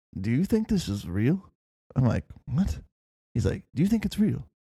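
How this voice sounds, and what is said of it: Put-on accent. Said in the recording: “good job on the accent too”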